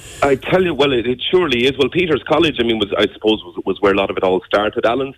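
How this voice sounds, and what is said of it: Irish Wexford accent. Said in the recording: “I'm happy enough with the Wexford accent”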